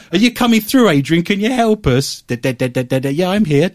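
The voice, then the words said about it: Mimics a garbled ghost box voice. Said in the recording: “my best impression of a ghost box ... I haven't got a speech impediment”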